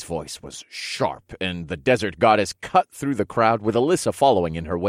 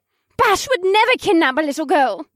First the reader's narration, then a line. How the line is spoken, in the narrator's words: my wife argued hotly